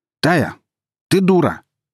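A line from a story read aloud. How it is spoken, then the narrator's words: Sudden shout. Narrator (Russian): неожиданно выкрикнул он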